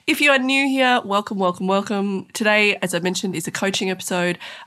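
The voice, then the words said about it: Congested voice from a cold. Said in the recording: “as you may have guessed, I have a bit of a cold,”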